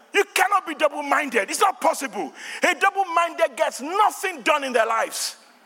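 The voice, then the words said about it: Nigerian accent. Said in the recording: “I know it's my Nigerian accent”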